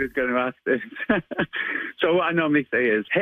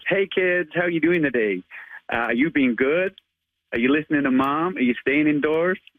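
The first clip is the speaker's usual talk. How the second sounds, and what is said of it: Attempted American accent. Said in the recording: “give us your American accent ... I try my best. I'm not the best at accents, but I do try.”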